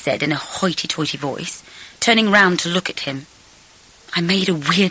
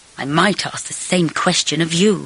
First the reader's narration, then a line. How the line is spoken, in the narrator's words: he said icily